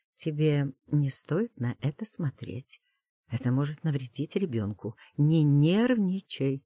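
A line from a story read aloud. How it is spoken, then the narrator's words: Quiet. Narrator (Russian): говорю тихо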